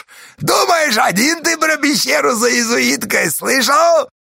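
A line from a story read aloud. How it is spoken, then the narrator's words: Yelling. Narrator (Russian): орал он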